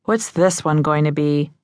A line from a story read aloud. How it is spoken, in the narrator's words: one nurse sighed